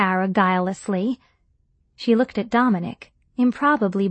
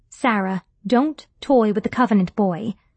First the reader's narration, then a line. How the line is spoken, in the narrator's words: I said sternly